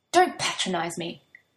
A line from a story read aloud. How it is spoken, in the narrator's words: she snaps